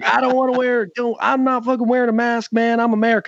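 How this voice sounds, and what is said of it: Mocking put-on Southern American accent. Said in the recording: “making fun of like a Southern accent”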